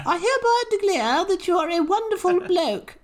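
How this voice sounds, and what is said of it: Comic Monty Python-style woman's voice. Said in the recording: “your impression of the Queen sounds like a Monty Python woman ... my impression of the Australian Queen”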